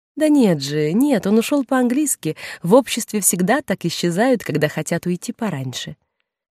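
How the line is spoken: Cheerful, smoothing awkwardness. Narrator (Russian): Госпожа Розамельи, желая сгладить неловкость, весело сказала

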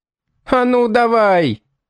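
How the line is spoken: Shrill shout. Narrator (Russian): визгливо крикнул кто-то из толпы

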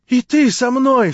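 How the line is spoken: Imploring cry. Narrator (Russian): вскрикнула с мольбою

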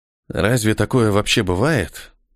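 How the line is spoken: Muttered. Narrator (Russian): пробормотал Ниэль

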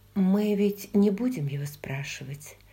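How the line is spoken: Sleepy whisper. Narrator (Russian): прошептала Бри сонным голосом

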